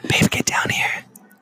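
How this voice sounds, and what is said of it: Whispering. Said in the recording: “that's why I'm whispering”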